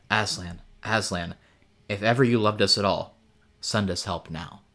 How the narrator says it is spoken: Lucy whispered

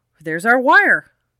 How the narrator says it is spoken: Dave Miller exclaimed

